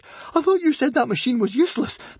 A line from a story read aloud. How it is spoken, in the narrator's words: panted Fishlegs